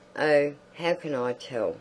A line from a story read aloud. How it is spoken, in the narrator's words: said Josephine crossly